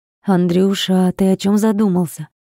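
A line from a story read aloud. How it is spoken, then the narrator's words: Gently asked. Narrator (Russian): Ласково спросила мама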